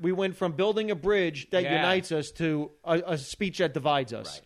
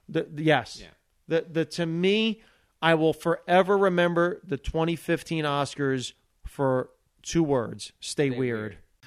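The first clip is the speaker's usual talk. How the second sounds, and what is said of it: Choked-up, emotional voice. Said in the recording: “I got emotional. I'm actually getting a little choked up”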